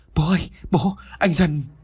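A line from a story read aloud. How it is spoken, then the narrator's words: Trembling voice. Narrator (Vietnamese): Mai run rẩy vừa nói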